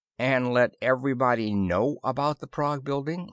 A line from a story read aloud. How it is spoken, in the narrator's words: I said